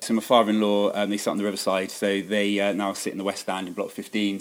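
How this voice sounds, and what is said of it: Bristol English accent. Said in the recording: “you could probably tell from my accent I'm not actually from these parts. I'm actually from Bristol”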